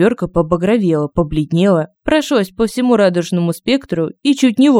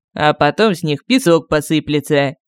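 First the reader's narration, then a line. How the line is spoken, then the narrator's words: Snide. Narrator (Russian): ехидно пояснил Кощей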